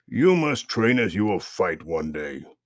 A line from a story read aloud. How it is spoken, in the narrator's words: said the man gruffly